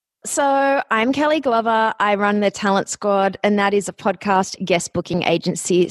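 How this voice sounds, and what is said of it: Australian accent. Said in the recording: “you might notice my accent. I am from Australia”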